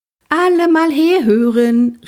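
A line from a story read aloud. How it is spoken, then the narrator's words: Calling out across bus. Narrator (German): rief durch den Bus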